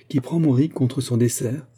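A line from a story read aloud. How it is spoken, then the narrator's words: Plain question. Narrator (French): demanda Hutin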